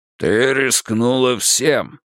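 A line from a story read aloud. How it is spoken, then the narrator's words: Growl. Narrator (Russian): рыкнул Тул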